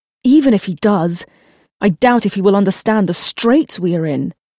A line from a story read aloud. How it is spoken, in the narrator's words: Jeremy said angrily